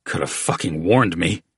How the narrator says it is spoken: growled, clearing the burn from his throat

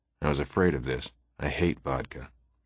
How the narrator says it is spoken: He murmured to me

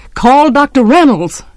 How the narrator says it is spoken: Atticus' voice came sharply

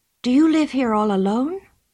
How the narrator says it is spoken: said anxiously

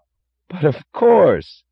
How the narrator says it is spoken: cried Lawson with startled enthusiasm

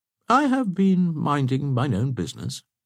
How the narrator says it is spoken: said De Bracy calmly

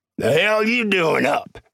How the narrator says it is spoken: he snarled

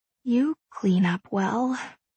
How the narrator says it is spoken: I whisper, needing to break the silence

